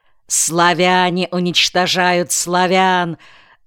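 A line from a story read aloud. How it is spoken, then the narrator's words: Loud ominous shout. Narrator (Russian): выкрикнул Гюнша зловеще и громко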